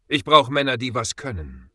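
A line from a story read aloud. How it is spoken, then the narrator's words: Calm, firm, commanding. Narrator (German): begann Ezekiel seine Stimme ruhig, aber mit einem Unterton, der keinen Widerspruch zuließ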